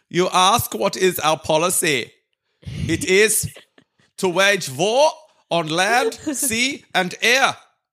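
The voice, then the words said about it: Put-on German accent reading speech. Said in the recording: “one of Winston Churchill's speeches ... but with a German accent”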